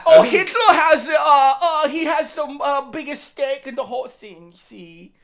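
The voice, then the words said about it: Weak attempt at German accent. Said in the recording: “It was trying to be German... It was an attempt, and I'm not good at German accents.”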